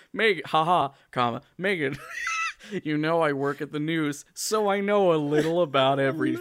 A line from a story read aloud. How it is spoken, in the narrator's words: he laughs and says